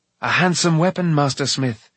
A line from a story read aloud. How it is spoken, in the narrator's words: he cried